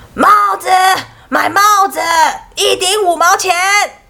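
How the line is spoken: Street vendor's call. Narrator (Chinese): 他 一边叫卖

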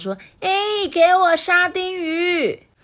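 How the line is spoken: Woman calling out. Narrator (Chinese): 太太啊，在后门叫道

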